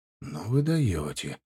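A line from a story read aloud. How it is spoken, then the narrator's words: Breathed out. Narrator (Russian): выдохнул я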